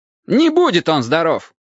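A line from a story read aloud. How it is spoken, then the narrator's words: Sharp objection. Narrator (Russian): резко возразил Кимыч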